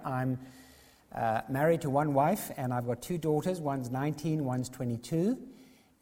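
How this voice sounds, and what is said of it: South African accent. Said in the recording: “I'm from South Africa, quite obviously. You think I've got an accent, but actually I've got the real thing.”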